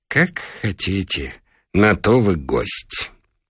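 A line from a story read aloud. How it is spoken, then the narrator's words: Sighing whisper. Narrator (Russian): Хозяин вздохнул и прошептал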